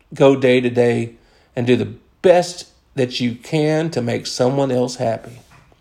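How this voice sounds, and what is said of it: American accent. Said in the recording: “in an American accent”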